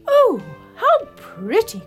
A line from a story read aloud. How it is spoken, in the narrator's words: cried the queen